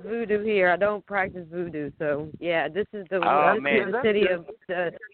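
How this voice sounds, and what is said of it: New Orleans accent. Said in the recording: “you've got an interesting accent ... I am from New Orleans”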